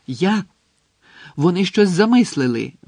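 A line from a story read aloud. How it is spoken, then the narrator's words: Tense exclamation. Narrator (Ukrainian): вигукнув Гаррі, мимоволі стискаючи кулаки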